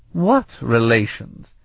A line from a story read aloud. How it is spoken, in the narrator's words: Itania snorted